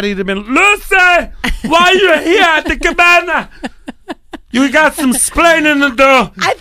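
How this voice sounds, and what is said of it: Imitates a TV character's voice. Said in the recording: “Not my best impression.... It was decent, though.”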